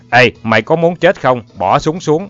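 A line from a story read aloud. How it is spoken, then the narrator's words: Threatening near-shout. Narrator (Vietnamese): nói như quát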